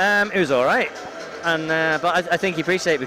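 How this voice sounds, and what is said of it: Usual voice. Nothing is said of it.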